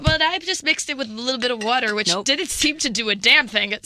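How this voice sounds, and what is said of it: Pinched, nasal voice. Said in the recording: “I'm holding my nose, so the quality of my voice is going to go down”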